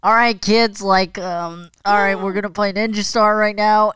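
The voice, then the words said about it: Loud strained imitation of another person. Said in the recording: “do a Brian impression? ... I don't want to hurt my voice, so I'm gonna tone it down a little bit. But it it sounded something like this, where it was uh like that thing called a diaphragm. I just don't think we used it”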